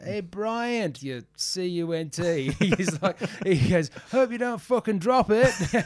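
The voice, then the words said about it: Thick Salford accent. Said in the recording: “thick, you know, Salford accent”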